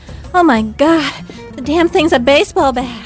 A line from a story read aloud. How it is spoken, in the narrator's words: I gasped